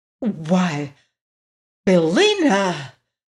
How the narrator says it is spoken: cried Dorothy in a shocked voice

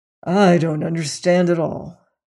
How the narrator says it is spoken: muttered Syme

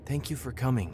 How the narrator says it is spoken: she said, her voice almost a whisper

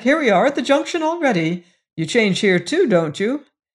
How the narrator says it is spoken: he exclaimed, starting up

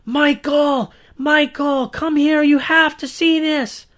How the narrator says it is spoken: she was screaming from the other end of the house

